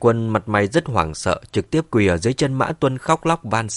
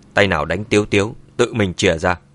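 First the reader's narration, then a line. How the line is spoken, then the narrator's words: Cold. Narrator (Vietnamese): Mã Tuân mặt mày lạnh lùng nói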